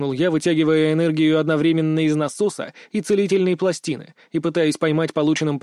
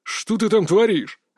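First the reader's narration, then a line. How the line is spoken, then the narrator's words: Father barking. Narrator (Russian): рявкнул отец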